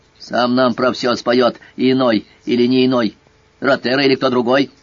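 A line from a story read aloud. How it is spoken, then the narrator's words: Hoarse bark. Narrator (Russian): Босой медведь гаркнул хрипло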